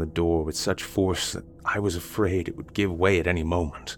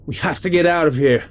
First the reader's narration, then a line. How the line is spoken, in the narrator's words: I yelled